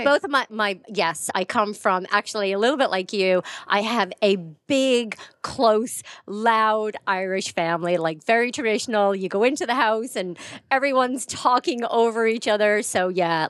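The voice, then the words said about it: American-sounding accent. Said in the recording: “I might sound American ... that's why I sound like I have more of an American accent.”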